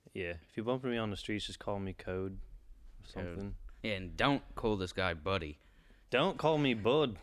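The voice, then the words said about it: Put-on accent. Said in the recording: “I gotta stop this accent. I can't stop... It's hard to stop... We gotta stop doing this accent.”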